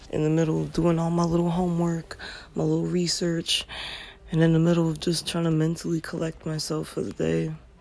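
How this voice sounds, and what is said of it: Slightly cracked voice. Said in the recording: “my voice sounds a little cracked”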